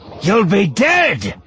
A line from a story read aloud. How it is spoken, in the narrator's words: Ebazan snarled